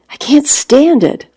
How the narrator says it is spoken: I cried out

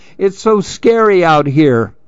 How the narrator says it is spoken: cried Lou

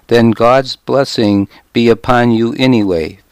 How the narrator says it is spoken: Father Brynjolf said

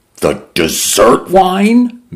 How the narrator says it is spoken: Mendoza cried

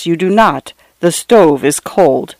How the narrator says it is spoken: she replied in a low, flat voice

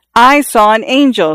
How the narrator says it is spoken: Xiao Shui screamed

